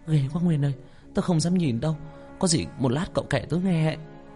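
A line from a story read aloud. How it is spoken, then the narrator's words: Frightened trembling. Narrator (Vietnamese): Như nép sát vào thằng Nguyên run rẩy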